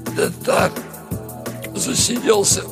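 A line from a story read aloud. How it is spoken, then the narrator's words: Hoarse, wheezing, barely intelligible. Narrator (Russian): Непослушный голос выдавал хрипы и сипения, мало похожие на слова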